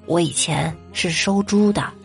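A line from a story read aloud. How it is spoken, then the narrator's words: Lowered voice. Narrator (Chinese): 他压低了声音对我说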